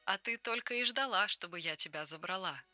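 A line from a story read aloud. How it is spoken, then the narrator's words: Laughing. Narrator (Russian): рассмеялась она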